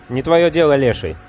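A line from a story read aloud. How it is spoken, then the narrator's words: Irritated reply. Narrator (Russian): раздраженно ответил Виджай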